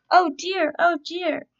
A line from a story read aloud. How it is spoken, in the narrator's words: cried Mr